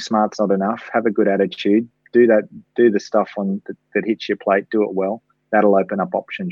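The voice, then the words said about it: Australian accent. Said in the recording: “an Australian accent ... Hopefully I still sound Australian.”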